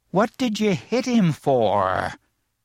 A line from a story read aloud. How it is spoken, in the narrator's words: he wheezed resentfully